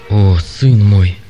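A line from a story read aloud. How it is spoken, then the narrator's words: Trembling voice. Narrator (Russian): ответил Юрий дрожащим голосом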